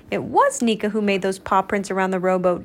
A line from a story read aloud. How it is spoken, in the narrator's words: DJ barked